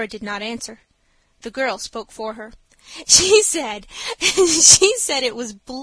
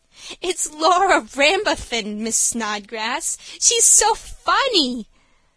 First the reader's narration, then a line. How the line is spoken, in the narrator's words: spluttered the girl